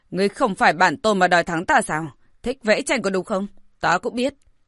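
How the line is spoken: Furious shout. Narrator (Vietnamese): Hắn phẫn nộ quát

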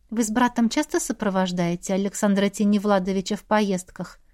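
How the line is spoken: Polite society tone. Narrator (Russian): Светским тоном спросила я

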